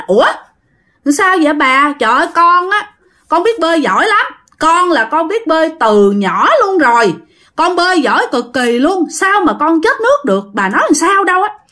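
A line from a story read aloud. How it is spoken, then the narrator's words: Loud. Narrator (Vietnamese): nó mới lớn tiếng nói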